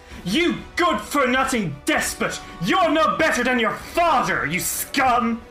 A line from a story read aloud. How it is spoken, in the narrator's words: She snarls and she says